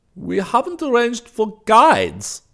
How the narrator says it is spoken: Weist declared triumphantly

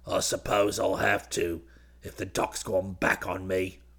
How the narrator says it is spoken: Perkins snarled

